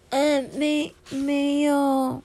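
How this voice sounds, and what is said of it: Tiny, very quiet voice. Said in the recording (Chinese): “它用比蚊子还小的声音说”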